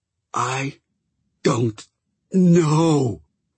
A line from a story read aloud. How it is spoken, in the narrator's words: Chat said, again, so emphatically that the last word came out as a wheeze